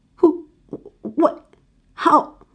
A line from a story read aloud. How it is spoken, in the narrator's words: Heather stutters, trying to grasp the situation